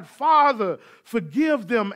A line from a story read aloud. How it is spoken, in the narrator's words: When they drove the nails into his body, he cried